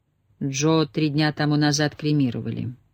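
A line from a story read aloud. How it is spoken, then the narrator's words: Quiet voice. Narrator (Russian): тихо произнес Деметрос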